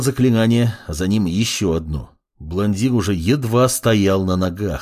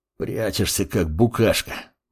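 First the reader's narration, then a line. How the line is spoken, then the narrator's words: Wheezing. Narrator (Russian): просипел Арес, ощущая, как тьма наседает и просачивается через щит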